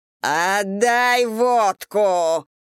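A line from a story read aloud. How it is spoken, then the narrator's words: Growling. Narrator (Russian): прорычала Гурова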